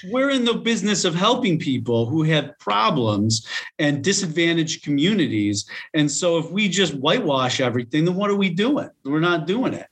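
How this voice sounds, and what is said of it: New York accent. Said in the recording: “I just heard the New York accent there.”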